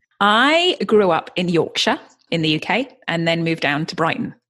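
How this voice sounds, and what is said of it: British Yorkshire accent. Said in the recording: “in love with your accent right now because it's beautiful”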